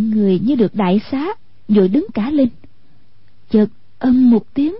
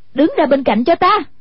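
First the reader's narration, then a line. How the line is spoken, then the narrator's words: Exasperated shout. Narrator (Vietnamese): Hoàng Dung nghe thấy không chịu nổi, quát lên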